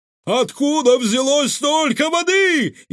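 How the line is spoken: Frantic screaming. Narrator (Russian): истошно завопил управляющий

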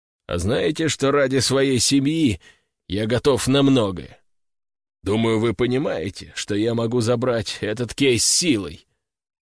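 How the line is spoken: Heavy tone. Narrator (Russian): тяжелым тоном сказал Константин Валентинович

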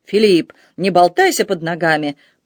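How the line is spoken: Growled. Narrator (Russian): прорычал он

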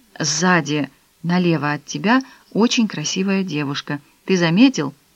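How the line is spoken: Whisper in ear. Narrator (Russian): Кароль шепнула ему на ухо

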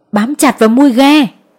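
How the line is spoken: Urgent yell. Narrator (Vietnamese): Ba Tài đã phát hiện ghe của mình bị trôi, anh gào lên

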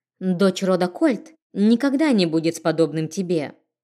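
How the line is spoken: Through gritted teeth. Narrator (Russian): Она окинула презрительным взглядом моего оборотня и процедила

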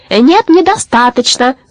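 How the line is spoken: Aunt yelling. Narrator (Russian): заорала тетка Румпумпель

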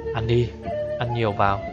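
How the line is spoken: Low urging voice. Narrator (Vietnamese): thấp giọng thúc giục nói

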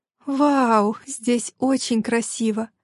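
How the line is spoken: Breathed out. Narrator (Russian): все же выдохнула

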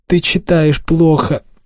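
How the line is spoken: Shriek. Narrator (Russian): взвизгнула Аманда

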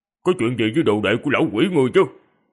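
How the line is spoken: Cold. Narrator (Vietnamese): Điện Bất Dịch lạnh lùng nói

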